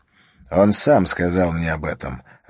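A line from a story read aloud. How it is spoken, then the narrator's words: Plain. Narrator (Russian): ответил Харри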